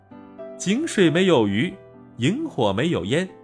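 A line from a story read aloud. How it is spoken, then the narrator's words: Giggling child. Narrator (Chinese): 小孩咯咯直笑，说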